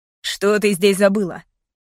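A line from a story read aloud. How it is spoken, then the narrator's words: Domineering, possessive asking. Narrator (Russian): Снова спросил он, как всегда властным тоном эгоиста и собственника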